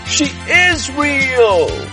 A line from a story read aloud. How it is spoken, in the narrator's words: He screams as he soars over the wonderful world of Pumpland